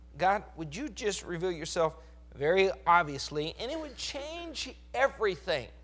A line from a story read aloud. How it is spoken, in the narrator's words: pleading with God